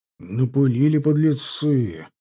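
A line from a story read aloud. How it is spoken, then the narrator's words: Displeased grumble. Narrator (Russian): недовольно проворчал Мозырев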